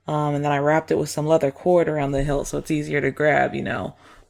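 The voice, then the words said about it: Rural Southern American accent. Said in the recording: “loving this accent too. Like, y'all must be from Old Town Road? Well, down there? Down the holler?”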